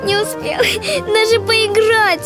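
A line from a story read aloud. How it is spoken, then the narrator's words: Whining. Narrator (Russian): хныкал он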